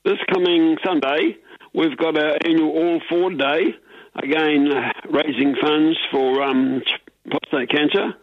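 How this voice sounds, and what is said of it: Elderly voice, sounds ill with cold. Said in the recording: “excuse me, coughing. I'm 86 and I've got a cold, so that's why I probably sound not too good.”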